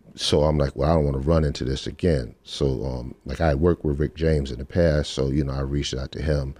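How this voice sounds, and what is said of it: Usual voice. Nothing is said of it.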